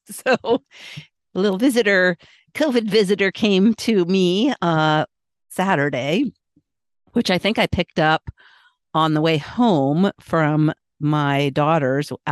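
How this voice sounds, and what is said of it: Congested, slightly sick-sounding voice. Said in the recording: “You may notice in my voice that it sounds like I have a little bit of a cold.”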